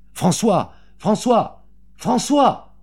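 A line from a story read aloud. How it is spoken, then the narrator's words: Heartrending calling voice. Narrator (French): Elle appelait d'une voix déchirante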